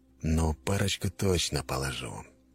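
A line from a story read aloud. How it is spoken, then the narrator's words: Gloomy. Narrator (Russian): мрачно решил Макаров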